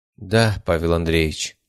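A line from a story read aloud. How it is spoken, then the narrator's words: Sighing. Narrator (Russian): вздохнула она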